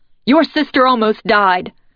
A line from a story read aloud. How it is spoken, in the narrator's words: Ma yells into my face